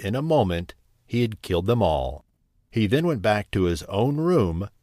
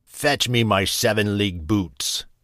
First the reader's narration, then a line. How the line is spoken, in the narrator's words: he cried to his wife